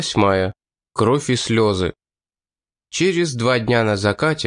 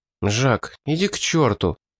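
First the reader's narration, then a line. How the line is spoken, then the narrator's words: Grumbling. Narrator (Russian): пробурчал Аята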